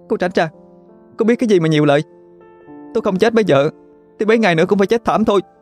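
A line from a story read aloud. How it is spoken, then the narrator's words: Sobbing desperate shout. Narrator (Vietnamese): Cô gái kia vừa nấc nghẹn ngào, còn quát Vân Xuyên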